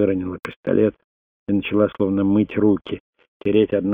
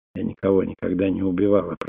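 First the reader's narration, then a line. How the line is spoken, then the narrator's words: Whisper. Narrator (Russian): прошептала Селиан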